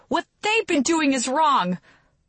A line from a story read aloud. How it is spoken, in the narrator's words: I yell back